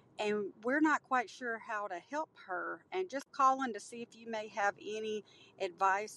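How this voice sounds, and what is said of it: Mississippi accent. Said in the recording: “I love that accent from Mississippi.”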